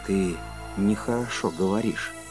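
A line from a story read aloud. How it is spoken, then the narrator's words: Quiet speech. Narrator (Russian): сказал Кондратьев тихо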